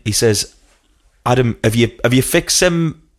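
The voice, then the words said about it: Slightly Welsh-tinged accent. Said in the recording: “we had a similar sort of accent, but his was a little bit more Welsh”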